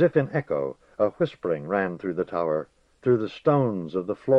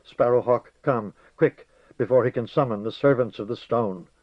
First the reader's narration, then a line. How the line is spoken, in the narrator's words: she said in a shaking voice